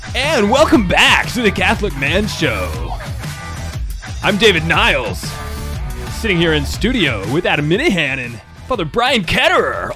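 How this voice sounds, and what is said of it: Exaggerated radio announcer voice. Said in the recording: “your best radio voice ... That was not a radio voice ... a ball game announcer voice ... Gone wrong ... like a morning show, I'm the funny one. Radio voice ... like the guy who gets stuck in the 3 a.m. slot and he's trying to stay awake”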